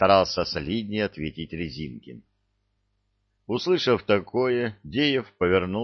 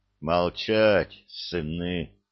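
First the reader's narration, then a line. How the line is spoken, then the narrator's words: Deep booming voice. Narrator (Russian): пробасил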